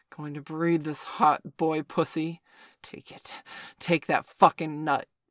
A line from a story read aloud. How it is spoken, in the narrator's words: Victor grunted as he thrust into Bailey